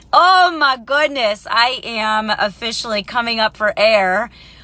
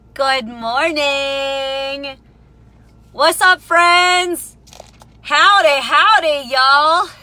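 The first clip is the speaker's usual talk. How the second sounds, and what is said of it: Put-on Texan accent. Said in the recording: “Not sure if I sound like a Texan yet, but I hear that's what they sound like”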